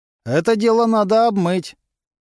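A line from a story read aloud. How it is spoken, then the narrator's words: Loud. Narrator (Russian): громко сказал один из его поклонников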